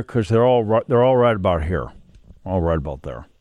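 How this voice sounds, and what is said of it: Kevin Costner impression. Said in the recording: “do my Kevin Costner voice ... I think that's very good.”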